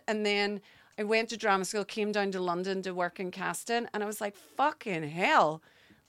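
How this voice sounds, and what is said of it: Irish accent. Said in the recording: “I feel underrepresented as an Irish person because of my accent.”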